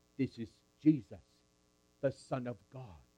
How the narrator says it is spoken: We said in a whisper

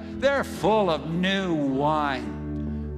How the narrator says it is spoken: Others mocking said

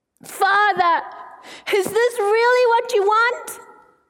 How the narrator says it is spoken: violent sobs shook his body

